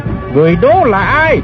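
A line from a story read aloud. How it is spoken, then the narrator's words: Eerie roar, loud shout. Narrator (Vietnamese): Tiêu Diễn Sơn lại gầm lên một tiếng rùng rợn rồi quát lớn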